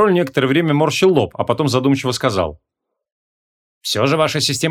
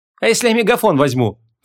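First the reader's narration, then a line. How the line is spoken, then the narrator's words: Snorted. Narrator (Russian): фыркнула Вон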